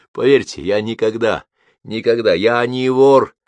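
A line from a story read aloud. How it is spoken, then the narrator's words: Shouted. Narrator (Russian): выкрикнул он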